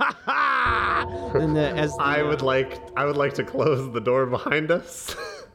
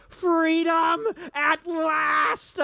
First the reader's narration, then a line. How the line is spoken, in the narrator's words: he yells